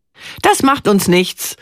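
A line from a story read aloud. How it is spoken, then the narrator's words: Shouting. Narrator (German): ruft sie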